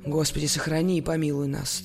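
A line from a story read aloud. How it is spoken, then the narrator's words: Solemn. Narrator (Russian): торжественно проговорил Георгий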